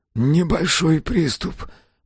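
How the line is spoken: Wheezing, in pain. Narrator (Russian): просипел Мэлори, не в силах выпрямиться

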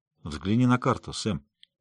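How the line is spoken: Serious tone. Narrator (Russian): сказала серьезным тоном

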